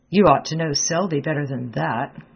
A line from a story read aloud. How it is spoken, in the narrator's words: growled Clifford behind the door